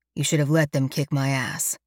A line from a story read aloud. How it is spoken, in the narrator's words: he says grimly